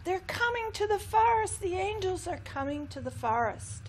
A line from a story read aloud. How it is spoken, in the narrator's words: the cedars cried out